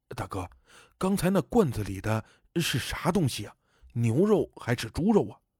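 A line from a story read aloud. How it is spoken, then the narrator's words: Low-voiced question. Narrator (Chinese): 郝先生的小舅子低声问我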